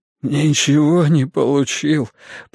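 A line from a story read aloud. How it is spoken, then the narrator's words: Mumbled through sobs. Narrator (Russian): пробормотал он, всхлипывая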